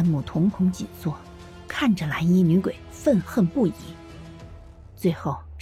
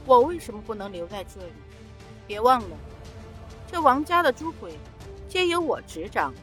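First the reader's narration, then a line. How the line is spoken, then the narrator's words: Sneering female ghost. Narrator (Chinese): 蓝衣女鬼嗤笑一声说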